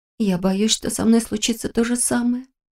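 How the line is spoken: Quiet confession. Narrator (Russian): тихо призналась она

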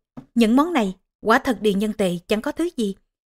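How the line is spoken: Smiling. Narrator (Vietnamese): Tề Y Vương mỉm cười

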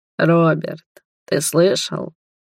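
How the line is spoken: King sighing. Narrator (Russian): вздохнул король

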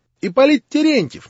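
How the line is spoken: Shrill squeal. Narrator (Russian): неожиданно визгливым голосом провизжал последний

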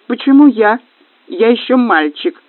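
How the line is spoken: Reluctant whining. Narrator (Russian): захныкал Каин, которому страсть как не хотелось пропускать фуршет

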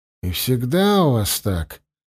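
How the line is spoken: Gloomy question. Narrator (Russian): мрачно спросил Киран

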